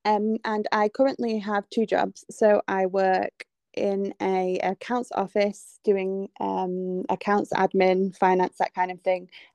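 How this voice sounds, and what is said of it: English accent. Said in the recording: “I am from England, if you can't tell by my accent.”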